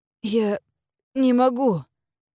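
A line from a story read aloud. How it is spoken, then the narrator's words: Hoarse, strained. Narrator (Russian): хрипло проговорил Вайдун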